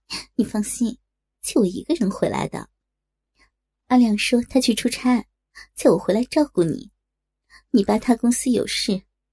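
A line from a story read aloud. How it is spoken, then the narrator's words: Smiling. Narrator (Chinese): 陆婷 笑着说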